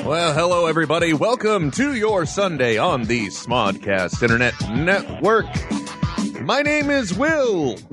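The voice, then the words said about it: Fake radio announcer voice. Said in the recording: “my fake and busted radio voice ... I think it's sexy.”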